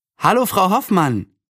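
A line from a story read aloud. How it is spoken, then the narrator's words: Cheerful call. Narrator (German): rief fröhlich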